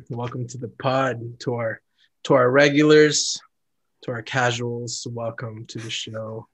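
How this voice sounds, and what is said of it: Smooth R&B radio DJ voice. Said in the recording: “This man always trying to be like an R&B radio voice... Got to get my personality voice on the podcast.”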